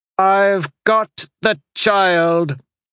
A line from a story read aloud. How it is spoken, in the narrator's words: a voice suddenly called out above the din of battle